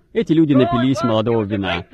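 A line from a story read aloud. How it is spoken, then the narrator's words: Laughing talk. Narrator (Russian): Они смеялись и говорили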